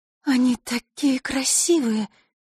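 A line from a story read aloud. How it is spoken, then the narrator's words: Breathless exclamation. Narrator (Russian): выдохнула Василиса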